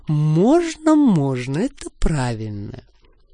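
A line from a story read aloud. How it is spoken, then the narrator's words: Tender purr. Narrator (Russian): Я ласково мурлыкала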